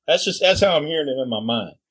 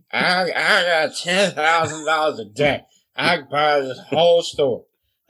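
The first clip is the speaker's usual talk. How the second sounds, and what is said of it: Slurred, stumbling drunken speech. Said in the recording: “in a slurred voice ... not hearing it with a clear, you know, and enunciating ... Stumbling, kind of going back and forth”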